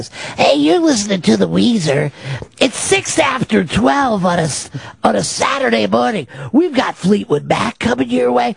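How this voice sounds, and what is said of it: Raspy female radio DJ voice. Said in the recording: “like those girls that are on classic rock stations ... raspy. ... Juicy and raspy at the same time.”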